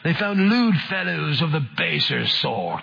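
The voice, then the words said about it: Put-on English accent. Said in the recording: “Let me read that again in an English accent.”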